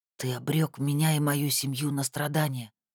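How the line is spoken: Whispered, young man. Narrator (Russian): прошептал юноша

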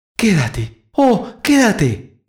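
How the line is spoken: Mother's exclamation. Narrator (Spanish): exclamó la madre

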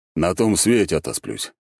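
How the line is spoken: Snorting. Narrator (Russian): хмыкнул Альберт

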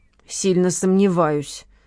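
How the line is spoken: Curt mutter. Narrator (Russian): буркнула Лола

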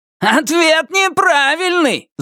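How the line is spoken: Yelling. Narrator (Russian): заорал Туз

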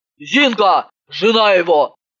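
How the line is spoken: Barking shout. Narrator (Russian): рявкнула Иванова

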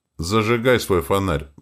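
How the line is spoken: Hollow muffled voice. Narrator (Russian): произнес Вельмар глухо

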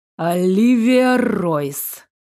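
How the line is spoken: Through gritted teeth. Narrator (Russian): процедил король

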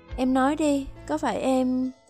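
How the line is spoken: Trembling voice. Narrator (Vietnamese): giọng nói run rẩy

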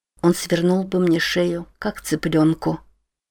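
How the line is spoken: Quiet speech. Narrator (Russian): тихо проговорила она

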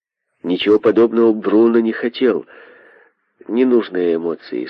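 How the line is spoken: Plain. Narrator (Russian): сказал Майлз

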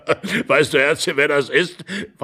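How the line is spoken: Old man laughing and coughing. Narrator (German): lachend und hustend der Alte an seine Frau

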